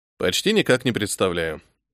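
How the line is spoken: Calm admission. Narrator (Russian): спокойно признался я

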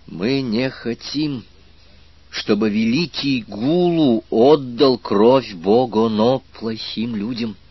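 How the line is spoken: Very slow and distinct. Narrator (Russian): очень медленно и членораздельно произнес аспирант

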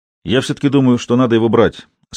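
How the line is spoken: Plain. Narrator (Russian): сказал Веселов

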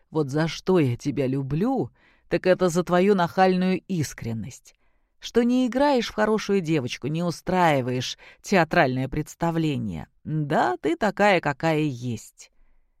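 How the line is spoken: Quiet, after laughter. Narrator (Russian): А отсмеявшись, проговорил тихо

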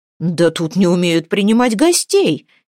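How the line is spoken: Cheerful mock indignation. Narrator (Russian): весело возмутился Фридмет Ярл

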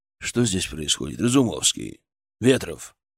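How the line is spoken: Quiet, weighty voice. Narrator (Russian): Его голос прозвучал тихо, но очень весомо

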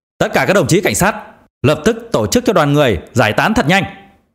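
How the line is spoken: Shouting into microphone. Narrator (Vietnamese): giám đốc Tống ở trên bục đã cầm lấy micro và hét lớn

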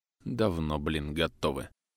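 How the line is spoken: Grumbling. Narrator (Russian): Проворчал я

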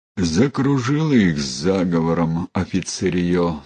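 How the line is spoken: Sigh. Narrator (Russian): вздохнул Михайло Саврасов

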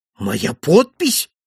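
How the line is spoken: Frantic exclamation. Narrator (Russian): воскликнул я вне себя

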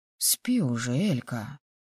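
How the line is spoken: Mumbling. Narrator (Russian): Пробормотал он

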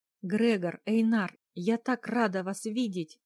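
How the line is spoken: Happy exclamation. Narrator (Russian): воскликнула, счастливо

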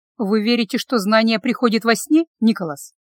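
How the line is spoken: Slightly mocking, hiding awkwardness. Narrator (Russian): чуть насмешливо сказала, пытаясь скрыть неловкость

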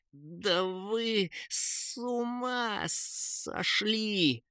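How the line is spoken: Angry hiss. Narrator (Russian): шипел Кейн, злобно выпучив глаза

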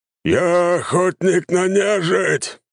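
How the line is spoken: Growling big man. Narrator (Russian): зарычал крупный мужик

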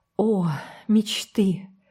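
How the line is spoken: Sigh. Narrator (Russian): вздохнула Энн

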